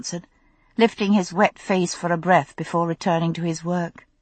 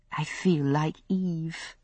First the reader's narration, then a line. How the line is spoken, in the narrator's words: I said softly